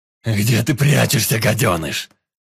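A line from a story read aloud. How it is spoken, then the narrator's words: Roared. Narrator (Russian): Взревел Никрит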